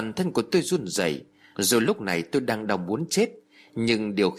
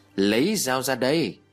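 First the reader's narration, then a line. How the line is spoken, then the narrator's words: Cold laugh, decisive. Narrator (Vietnamese): cười lạnh lùng, rồi dứt khoát nói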